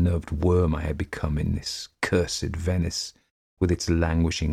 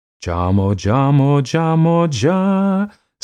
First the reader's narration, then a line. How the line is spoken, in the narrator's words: sang the loud, hoarse voices